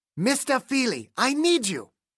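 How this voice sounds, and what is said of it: Gruff German accent. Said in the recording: “A gruff German accent. The voice a dagger in Tim's ear.”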